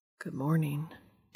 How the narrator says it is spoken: Dean says quietly

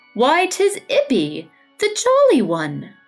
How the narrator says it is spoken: he exclaimed

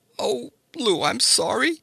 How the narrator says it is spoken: she sobbed

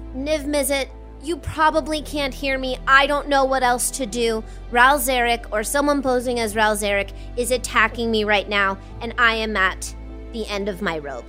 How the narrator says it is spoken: out of desperation, she simply screams into the ether, to the fire mind, and just says

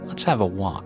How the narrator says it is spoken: he said

